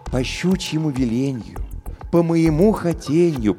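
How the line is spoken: Cooing. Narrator (Russian): проворковал он

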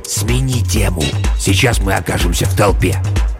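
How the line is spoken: Old man hissing. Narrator (Russian): старик прошипел

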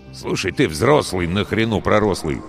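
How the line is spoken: Angry flight engineer. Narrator (Russian): сердито сказал бортмех

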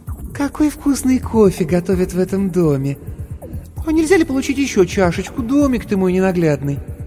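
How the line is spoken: Sickly-sweet cooing voice. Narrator (Russian): сказала приторно-умильным голосом

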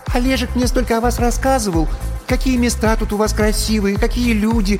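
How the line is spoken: High, sharp, birdlike voice. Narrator (Russian): начала черненькая Яна высоким и резким, каким-то птичьим голосом

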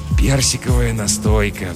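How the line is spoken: Sigh. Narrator (Russian): вздохнул жихарь

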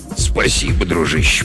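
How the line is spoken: Mutter. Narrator (Russian): пробормотал он

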